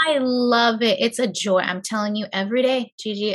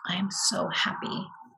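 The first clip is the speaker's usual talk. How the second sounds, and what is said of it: Whispered. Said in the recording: “I whisper,”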